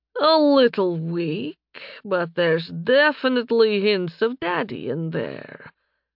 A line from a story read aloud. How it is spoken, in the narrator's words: the dark elf purred